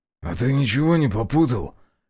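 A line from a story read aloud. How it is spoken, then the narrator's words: Hoarse sleepy question. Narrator (Russian): хриплым с просонья голосом спросил я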